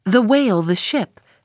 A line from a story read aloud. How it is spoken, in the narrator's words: cried the cringing oarsman